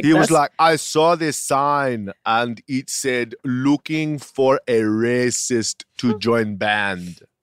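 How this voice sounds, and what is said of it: Put-on unidentified accent. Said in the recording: “I don't know what this accent is.”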